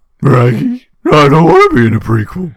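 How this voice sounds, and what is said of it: Scooby-Doo cartoon dog voice. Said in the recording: “that actually was better than I was expecting when I started that impression.”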